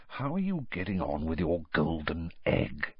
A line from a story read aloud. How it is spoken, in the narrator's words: lowered his voice